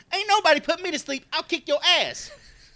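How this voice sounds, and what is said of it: Odd-pitched voice with Chicago accent. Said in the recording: “weird, Tony voice ... a weird pitch for a guy that big ... he's got like a Chicago accent in there too ... that's spot on”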